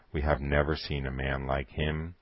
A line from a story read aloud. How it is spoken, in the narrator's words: they would mutter to themselves